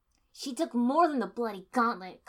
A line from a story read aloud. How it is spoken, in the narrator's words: Karenbana snarled